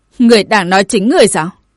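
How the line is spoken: Loud laughter. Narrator (Vietnamese): Tử linh quần chủ bị định trụ cười lớn

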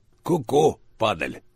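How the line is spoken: Wheezing rasp. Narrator (Russian): просипел двойник

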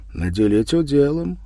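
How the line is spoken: Calm objection. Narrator (Russian): спокойно возразил Иван

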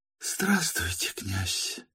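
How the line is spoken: Whisper. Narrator (Russian): прошептала она

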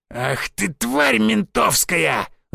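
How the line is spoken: Angry growl. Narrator (Russian): зарычал первый

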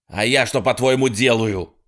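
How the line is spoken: Snapping retort. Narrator (Russian): огрызнулся Хедли

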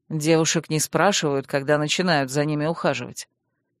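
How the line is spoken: Calm explanation. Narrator (Russian): спокойно объяснил

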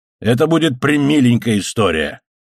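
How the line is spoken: Exclaiming. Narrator (Russian): воскликнул Гонзалес

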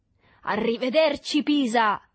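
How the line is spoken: Shouted. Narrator (Italian): gridò

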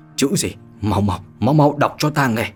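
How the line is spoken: Overjoyed trembling voice. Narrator (Vietnamese): Thần sắc của Ninh Bất Không vui mừng vô cùng, run rẩy mà nói

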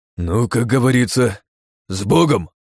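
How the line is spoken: Exhaled. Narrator (Russian): выдохнул Оболенский

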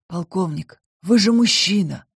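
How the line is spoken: Hoarse. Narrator (Russian): хрипло произнес Энрике

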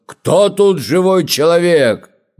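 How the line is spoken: Fierce serpent's loud shout. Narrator (Russian): змей лютый влетел, и он крикнул громким голосом

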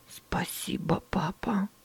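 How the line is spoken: Muttered. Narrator (Russian): пробормотала Эллен

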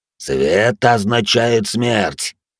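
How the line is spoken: Growled. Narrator (Russian): прорычал пожиратель костей

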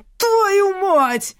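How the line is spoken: Yelled. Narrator (Russian): заорал он

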